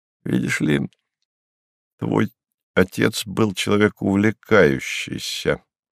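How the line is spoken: Soft. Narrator (Russian): мягко сказал Станислав

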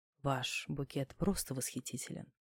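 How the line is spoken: Whisper. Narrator (Russian): продолжал шептать сосед задней парты

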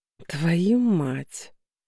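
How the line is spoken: Drawled. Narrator (Russian): Протянул фразу Кан

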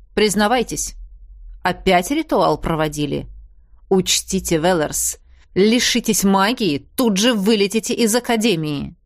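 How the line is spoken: Menacing. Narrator (Russian): говорил он грозно

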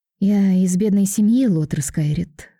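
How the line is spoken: Sighing explanation. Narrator (Russian): вздохнув, поясняет Алиса

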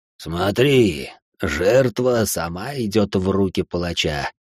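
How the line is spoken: Muffled madman's voice. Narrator (Russian): глухо произнес один из сумасшедших

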